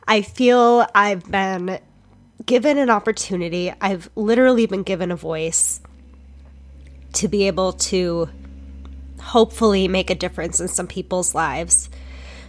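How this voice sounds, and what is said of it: Emotional, choked-up voice. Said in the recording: “I'm getting emotional again”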